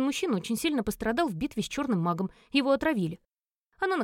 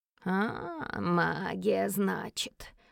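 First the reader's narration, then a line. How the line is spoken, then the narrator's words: Drawling creaky voice. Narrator (Russian): протянула она скрипучим голосом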